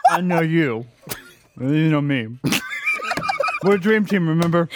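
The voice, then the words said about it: Imitates another person's voice. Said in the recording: “it's the best fucking Soul impression”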